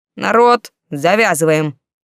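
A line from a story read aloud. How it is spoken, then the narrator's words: Sudden megaphone-loud roar. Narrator (Russian): Вдруг проревел таким громким голосом, словно у него в глотке встроенный мегафон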